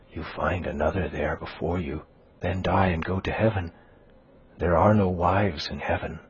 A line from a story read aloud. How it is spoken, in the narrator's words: she added, whispering